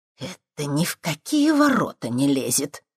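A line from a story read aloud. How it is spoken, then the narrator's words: Creaky displeased old woman. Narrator (Russian): проскрипел недовольный старушечий голос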